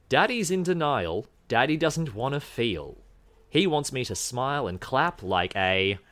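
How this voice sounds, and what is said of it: Put-on accent reading lyrics. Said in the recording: “I had to do the accent.”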